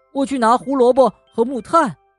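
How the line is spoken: Calling out. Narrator (Chinese): 跳跳叫道

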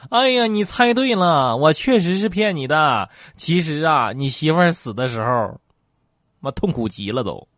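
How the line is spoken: Loud laughter. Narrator (Chinese): 医生哈哈大笑

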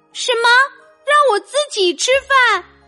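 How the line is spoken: Cheerful, smiling. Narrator (Chinese): 精灵保姆笑眯眯的说

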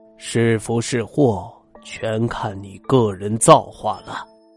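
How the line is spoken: Long sigh. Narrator (Chinese): 李乐天抚须长叹道

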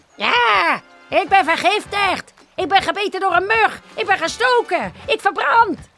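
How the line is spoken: Crocodile crying out. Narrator (Dutch): riep de krokodil

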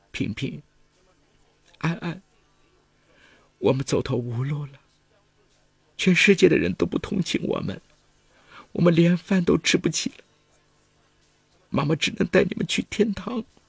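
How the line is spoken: Crying. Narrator (Chinese): 他哭着对两个孩子说

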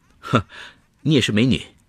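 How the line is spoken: Chuckling. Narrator (Chinese): 司机笑呵呵地说

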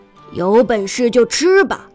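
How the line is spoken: Fierce roar, old man. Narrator (Chinese): 爷爷凶狠地吼道

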